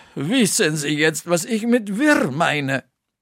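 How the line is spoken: Sigh. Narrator (German): seufzte Valentina

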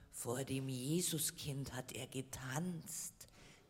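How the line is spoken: Snake hissing. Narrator (German): zischte die Schlange

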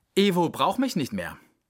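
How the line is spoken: Plain. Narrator (German): sagte sie

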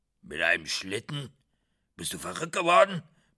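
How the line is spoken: Old devil bellowing. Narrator (German): brüllte der alte Teufel

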